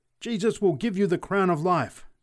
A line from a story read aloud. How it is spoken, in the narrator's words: screamed the preacher exultantly